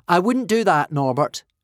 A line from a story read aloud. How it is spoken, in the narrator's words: Hiccup said loudly